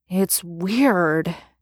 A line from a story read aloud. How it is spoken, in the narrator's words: Dean mutters after a minute